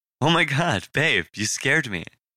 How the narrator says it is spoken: she said, laughing nervously

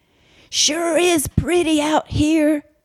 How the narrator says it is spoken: Husky yelled

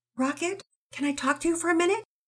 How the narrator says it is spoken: Penelope asked sweetly

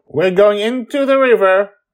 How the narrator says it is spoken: Joy shout

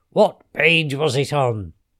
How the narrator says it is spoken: shouted the witch

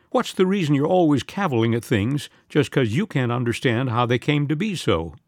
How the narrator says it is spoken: Aunt Lois set her lips firmly and wound with grim resolve

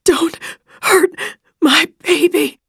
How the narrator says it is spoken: She could barely draw breath, gasping

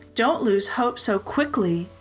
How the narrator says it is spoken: said

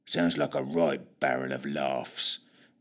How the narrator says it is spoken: muttered Fitch

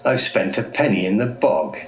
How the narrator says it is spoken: Duckstone cackled, his voice pinched, almost quacking

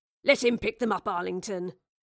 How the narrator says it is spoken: Charles grumbled

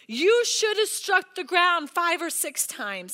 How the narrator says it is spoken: he exclaimed

